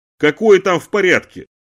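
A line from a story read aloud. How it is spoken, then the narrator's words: Attempted yell. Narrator (Russian): попробовал заорать я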